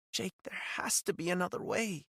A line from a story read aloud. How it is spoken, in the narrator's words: she said, her voice barely a whisper